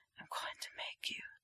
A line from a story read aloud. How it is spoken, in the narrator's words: whispers